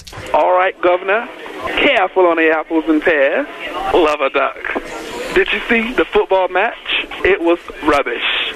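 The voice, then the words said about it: Put-on Cockney accent. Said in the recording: “We went for Cockney this time. You could try the Cockney accent ... James off of IPOP's Cockney accent”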